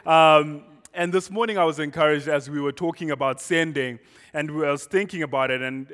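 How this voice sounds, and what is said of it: Foreign accent from far south. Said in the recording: “my accent is southern. But that's vague. It's very south. It's 7,500 miles south.”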